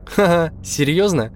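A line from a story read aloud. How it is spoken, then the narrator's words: Laughing. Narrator (Russian): рассмеялась я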